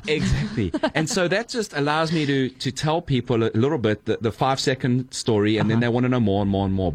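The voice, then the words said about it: Noticeable foreign accent. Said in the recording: “my accent. People are like, where are you from?”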